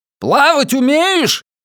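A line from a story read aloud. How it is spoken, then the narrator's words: Barked at full strength. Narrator (Russian): гаркнул я изо всей мочи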